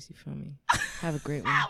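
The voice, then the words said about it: Put-on sexy voice. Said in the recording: “Signing on with the sexy voice.”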